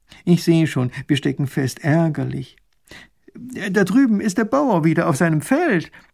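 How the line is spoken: Old man lamenting. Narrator (German): jammert der alte Kutscher

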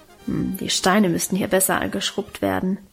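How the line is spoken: Grumbling to herself. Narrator (German): brummte sie vor sich hin

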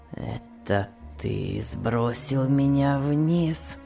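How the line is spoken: Weak voice. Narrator (Russian): спросил Том слабым голосом

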